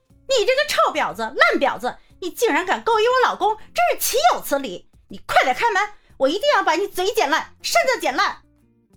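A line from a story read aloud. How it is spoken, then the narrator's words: Woman cursing loudly. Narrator (Chinese): 有个女人在高声骂街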